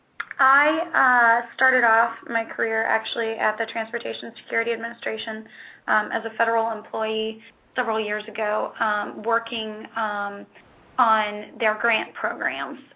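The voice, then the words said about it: Rough voice with a cold. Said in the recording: “my voice is a little rough and I've got a bit of a cough. I think I'm coming down with a cold.”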